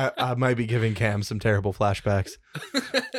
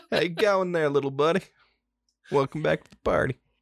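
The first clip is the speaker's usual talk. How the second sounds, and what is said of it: Put-on accent. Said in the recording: “with the accent”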